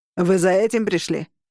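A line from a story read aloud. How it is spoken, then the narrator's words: Barked. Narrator (Russian): рявкнул чокнутый Роган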